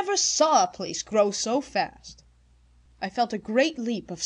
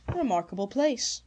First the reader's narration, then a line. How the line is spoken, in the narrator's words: said calmly